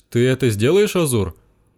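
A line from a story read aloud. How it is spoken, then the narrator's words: Anxious question. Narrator (Russian): взволнованно спросила Игрейна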